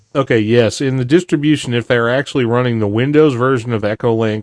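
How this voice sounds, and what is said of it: Southern drawl. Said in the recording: “I'm the guy with the drawl from Texas”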